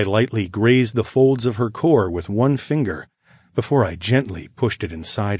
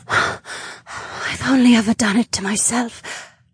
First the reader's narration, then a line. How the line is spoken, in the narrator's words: she whispered